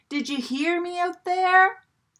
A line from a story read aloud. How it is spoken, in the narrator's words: He yelled